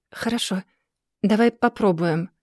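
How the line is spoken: Quiet reply. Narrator (Russian): отвечает он тихо

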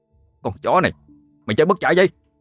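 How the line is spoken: Shout. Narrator (Vietnamese): Quân ... bèn hét lên

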